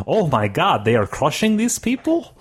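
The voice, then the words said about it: Funny put-on accent. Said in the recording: “you would say it in a funny accent”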